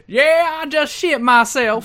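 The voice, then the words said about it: Put-on Southern US accent. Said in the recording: “I got a little Dixie then. A little Dixie card.”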